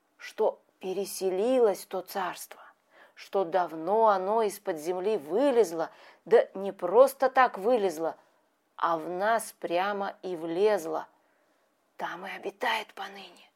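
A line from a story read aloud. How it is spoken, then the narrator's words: Whisper. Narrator (Russian): вновь перешел музыкант на шепот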